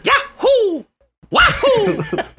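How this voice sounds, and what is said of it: Super Mario voice impression. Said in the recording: “That's the Italian plumber. ... Do your voice acting career. ... Super Mario sound”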